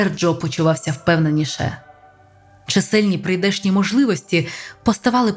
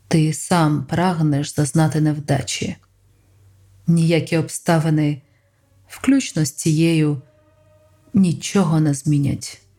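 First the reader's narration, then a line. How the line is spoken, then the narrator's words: Muffled, hollow voice. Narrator (Ukrainian): сказав Ел глухим голосом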